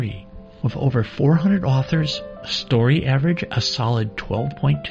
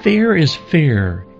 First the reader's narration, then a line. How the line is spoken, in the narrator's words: yelled Frankie